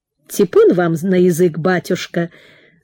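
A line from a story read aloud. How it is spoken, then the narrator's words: Laughing hostess. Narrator (Russian): засмеялась хозяйка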